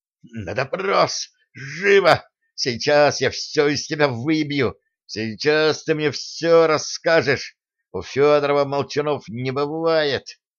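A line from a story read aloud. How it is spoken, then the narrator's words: Breathless furious rasp. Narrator (Russian): Особист задыхаясь от злости, прохрипел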